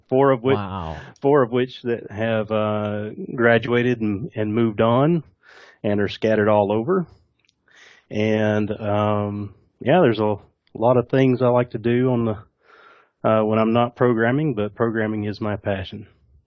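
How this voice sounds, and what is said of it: Slight Southern US twang. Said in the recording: “I definitely hear a little bit of a little Southern twang there, a little bit”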